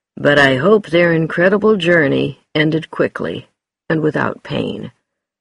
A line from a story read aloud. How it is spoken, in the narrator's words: Jim Hunter told his family sadly